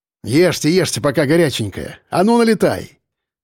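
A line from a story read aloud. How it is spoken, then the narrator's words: Cheerful. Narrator (Russian): весело проговорил Черноусов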